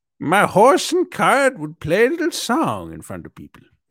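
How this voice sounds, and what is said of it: Put-on old-timey voice, leprechaun-like. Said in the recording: “do that voice ... you turned into a leprechaun at the end ... It's meant to be like an old horse and carriage”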